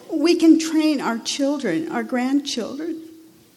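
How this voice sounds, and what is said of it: Emotional, choked-up speech. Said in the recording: “Sorry, I'm getting emotional.”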